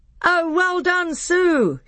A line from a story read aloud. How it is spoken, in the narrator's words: shouted the other children